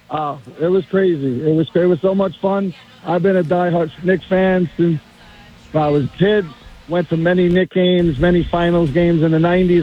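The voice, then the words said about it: Hoarse, strained voice. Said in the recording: “my voice is a little messed up from screaming”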